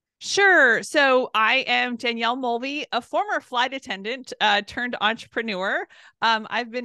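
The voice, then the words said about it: Southern Californian American accent. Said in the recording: “I'm loving the accent. ... I'm from California, Southern California. So it's where I was born and raised.”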